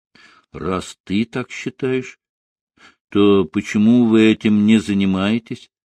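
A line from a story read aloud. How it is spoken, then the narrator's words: Dejected wife asking. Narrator (Russian): спросила жена подавленным голосом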